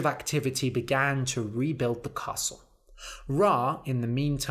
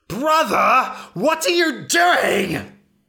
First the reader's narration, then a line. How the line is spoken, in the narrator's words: He shrieked